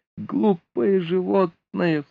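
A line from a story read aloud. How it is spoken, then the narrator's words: Sobbing. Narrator (Russian): всхлипывая, сказала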